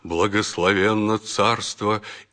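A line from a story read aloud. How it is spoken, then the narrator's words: Deep booming bass proclamation. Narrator (Russian): мощный глас Иллариона, который густым басом возгласил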